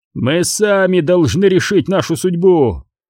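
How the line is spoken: Shouting. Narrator (Russian): кричал Нильд

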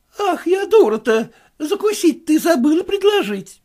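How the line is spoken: Frightened exclamation. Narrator (Russian): воскликнула Анна Астафьевна с таким испугом, как будто бы дело касалось спасения чьей-нибудь жизни

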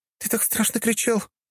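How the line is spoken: Sobbing little girl. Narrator (Russian): девчушка всхлипнула

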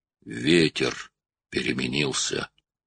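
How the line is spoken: Hoarse rasp. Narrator (Russian): прохрипел Брок

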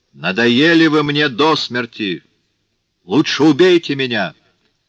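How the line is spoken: Shouted. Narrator (Russian): Жавер крикнул Жану Вальжану

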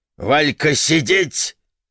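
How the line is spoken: Barked, grandmother. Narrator (Russian): рявкнула молчавшая все время до этого бабушка

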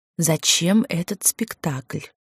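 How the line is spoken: Hissed. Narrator (Russian): прошипела я

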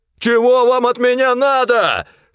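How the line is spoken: Continuous shouting. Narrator (Russian): все кричал Сильченко

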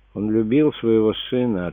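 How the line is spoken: Sad reply. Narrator (Russian): ответила дочь печально

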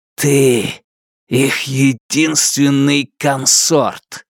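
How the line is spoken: Close, hissed. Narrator (Russian): Джанэй прошипел ему в лицо

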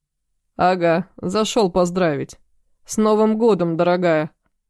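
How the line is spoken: Smirking snort. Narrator (Russian): Хмыкнул он

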